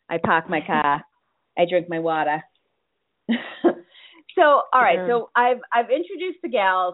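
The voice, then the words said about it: Boston accent. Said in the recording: “I have just one of those lousy Boston accents, which I try to cover up, but instead I really, it slips out every now and then”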